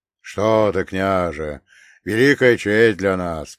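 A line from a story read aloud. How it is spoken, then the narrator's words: Deep bass voice. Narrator (Russian): пробасил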